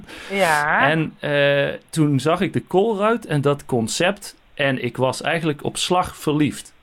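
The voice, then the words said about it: Netherlands Dutch accent. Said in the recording (Dutch): “misschien hoort u het aan mijn accent. Ik kom uit Nederland.”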